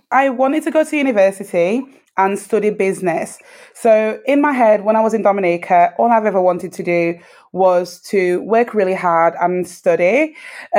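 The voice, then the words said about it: UK accent. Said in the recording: “we can certainly hear your lovely UK accent”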